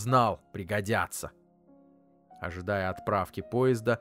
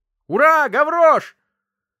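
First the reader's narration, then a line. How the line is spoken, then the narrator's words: Shrill thin yell. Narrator (Russian): Плохиш завопил пронзительным тоненьким голоском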